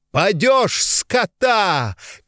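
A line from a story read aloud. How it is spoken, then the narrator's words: Laughing shout while running. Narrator (Russian): кричал он на бегу, заливаясь смехом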